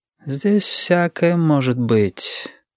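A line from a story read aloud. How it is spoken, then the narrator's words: Sigh. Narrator (Russian): вздохнул Юрик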